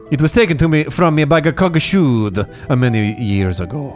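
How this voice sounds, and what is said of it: Character voice with put-on accent. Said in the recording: “It's on my accent.”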